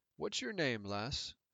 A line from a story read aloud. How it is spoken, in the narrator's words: His voice was light for a man of his size, not the deep bass I would have expected from the barrel chest